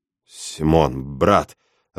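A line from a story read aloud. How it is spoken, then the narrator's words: Confused babbling. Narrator (Russian): растерянно лепечу я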